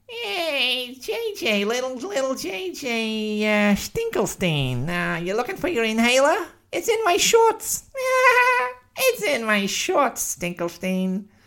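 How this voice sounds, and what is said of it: Mocking bully character voice. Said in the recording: “some jerk bully ... with an anachronistic accent, not a Canadian accent”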